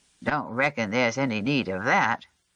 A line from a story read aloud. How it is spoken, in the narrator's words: mumbled, sounding disappointed